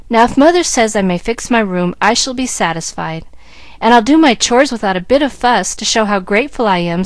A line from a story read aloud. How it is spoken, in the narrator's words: said the girl, smiling at her mother so wistfully